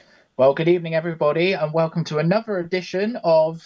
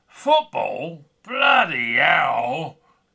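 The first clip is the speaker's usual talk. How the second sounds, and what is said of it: Imitates another person's voice. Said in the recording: “I've been working on my impression”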